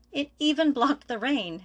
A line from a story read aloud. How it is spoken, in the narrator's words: Isu exclaimed